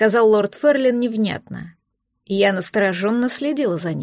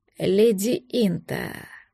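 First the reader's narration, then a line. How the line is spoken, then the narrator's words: Hoarse, testing voice. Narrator (Russian): повторил хрипло, словно пробуя голос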